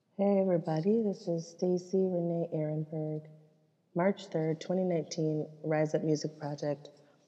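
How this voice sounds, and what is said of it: Hoarse, sore-throated voice. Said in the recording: “given me a very sore throat, very hoarse voice ... my voice is a little better today”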